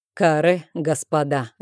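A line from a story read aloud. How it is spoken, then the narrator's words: Laughing. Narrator (Russian): рассмеялся он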